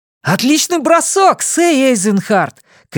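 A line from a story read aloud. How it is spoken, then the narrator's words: Shouted. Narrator (Russian): крикнул Джейк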